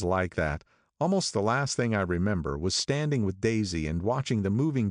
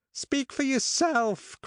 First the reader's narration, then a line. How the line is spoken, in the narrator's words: cried Miss Bedecker violently